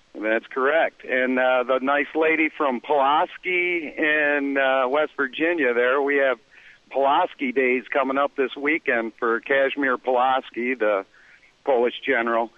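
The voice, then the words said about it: Midwestern American accent. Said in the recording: “I've got that Midwestern accent.”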